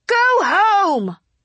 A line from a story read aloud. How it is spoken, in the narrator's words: someone in the crowd shouted